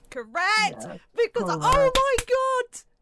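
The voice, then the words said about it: Excited screaming. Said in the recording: “I'm screaming ... that was awful for my headphones”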